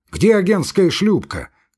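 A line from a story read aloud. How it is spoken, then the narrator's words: Shouted. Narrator (Russian): крикнул он гребцам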